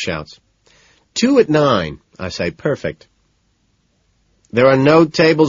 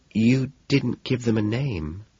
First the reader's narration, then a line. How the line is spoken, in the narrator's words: she says softly